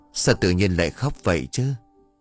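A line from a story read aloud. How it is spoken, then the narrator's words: Soft question. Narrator (Vietnamese): An khẽ hỏi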